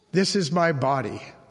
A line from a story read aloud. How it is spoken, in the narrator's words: says Jesus